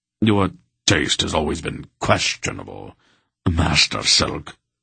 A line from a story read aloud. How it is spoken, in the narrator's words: Wolf said in a frosty tone